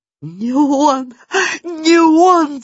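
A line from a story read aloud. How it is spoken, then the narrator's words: Sobbing. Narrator (Russian): зарыдала Ксюта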